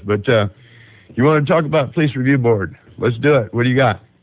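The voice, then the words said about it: Rough voice from a cold. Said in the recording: “I'm getting over that cold. So if I sound a little rough and a little bit spaced”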